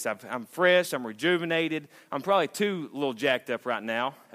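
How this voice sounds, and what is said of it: Out of breath, excited. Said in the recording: “I'm out of breath because I'm so jacked up”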